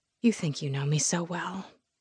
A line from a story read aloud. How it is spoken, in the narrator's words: I whispered